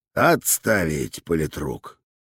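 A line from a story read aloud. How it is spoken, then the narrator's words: Good-natured commander's grumble. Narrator (Russian): добродушно проворчал комполка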